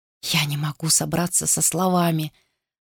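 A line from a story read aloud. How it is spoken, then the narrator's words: Muttering. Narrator (Russian): пробормотал он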